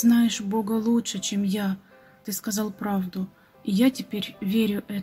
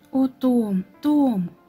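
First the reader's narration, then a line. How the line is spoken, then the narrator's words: Exclamation. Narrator (Russian): воскликнул Баннер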